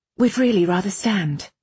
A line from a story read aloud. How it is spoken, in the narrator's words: Irene said quickly